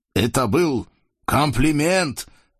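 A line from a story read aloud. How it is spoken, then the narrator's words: Shouted. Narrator (Russian): крикнул Сарам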